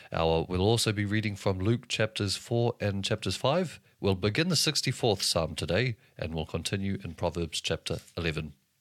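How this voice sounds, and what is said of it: New Zealand accent. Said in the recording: “pronounce these in my New Zealand accent”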